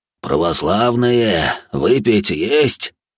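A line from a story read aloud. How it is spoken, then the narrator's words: Hoarse voice from behind. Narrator (Russian): раздался сзади хриплый голос Гриши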